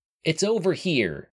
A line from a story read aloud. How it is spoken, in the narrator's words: he yelled over the whir of the reactor's incessant ionization